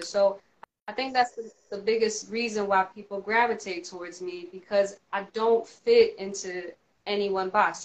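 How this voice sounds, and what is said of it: Southern US accent. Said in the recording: “You hear a Southern accent”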